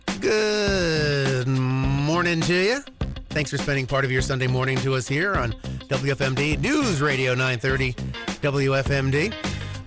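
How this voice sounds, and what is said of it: Slightly raspy voice. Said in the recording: “I'm a little bit raspy.”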